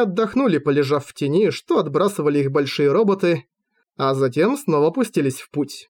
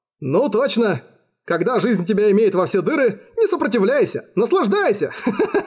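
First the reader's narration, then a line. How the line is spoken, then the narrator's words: Laughing. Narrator (Russian): Засмеялся Джан Шань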